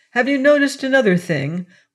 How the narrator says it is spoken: went on Flambeau eagerly

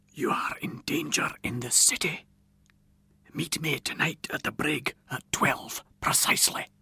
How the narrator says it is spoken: a voice from behind me whispered distinctly in my ear

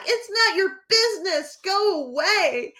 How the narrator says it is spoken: had enough and I yelled back

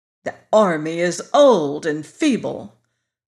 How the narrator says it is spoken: replied General Ginger scornfully

